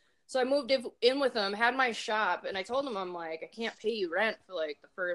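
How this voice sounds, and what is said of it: Usual voice. Nothing is said of it.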